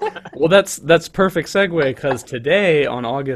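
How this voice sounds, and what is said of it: Usual voice. Nothing is said of it.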